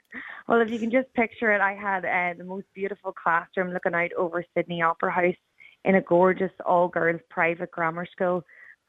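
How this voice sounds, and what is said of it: Northern Irish accent. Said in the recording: “your northern accent”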